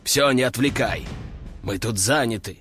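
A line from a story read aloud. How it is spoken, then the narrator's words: Growled after someone. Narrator (Russian): рыкнул он вслед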